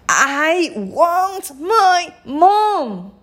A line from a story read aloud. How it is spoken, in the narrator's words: shrieked the little princess